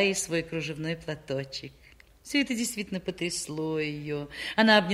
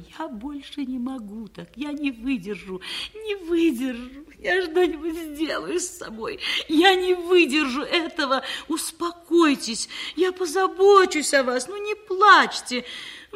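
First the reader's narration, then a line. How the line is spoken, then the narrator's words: Young woman, sobbing. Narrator (Russian): Девушка всхлипывая, выговорила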